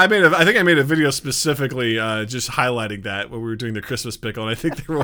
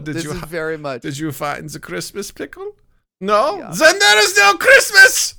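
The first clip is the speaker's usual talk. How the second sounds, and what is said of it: Bad put-on German accent. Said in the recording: “I was doing a bad German accent.”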